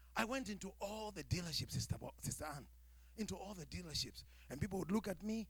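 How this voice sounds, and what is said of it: Speaks with a foreign accent. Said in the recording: “hear my accent”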